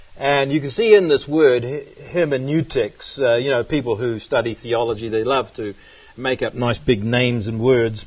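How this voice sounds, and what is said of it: Strong accent, hard to understand. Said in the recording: “one guy was criticizing my accent and saying he couldn't understand a word I said”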